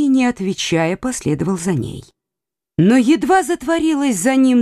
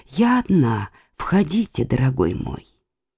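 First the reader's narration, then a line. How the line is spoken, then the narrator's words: Close to ear, in Latin. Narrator (Russian): Маргарита, нагнувшись к его уху, сказала по-латыни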